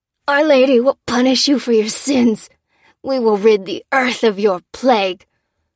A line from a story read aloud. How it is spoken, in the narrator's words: grunted the man